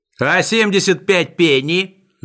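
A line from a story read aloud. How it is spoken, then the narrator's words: Wailing shout. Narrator (Russian): завопил Сниф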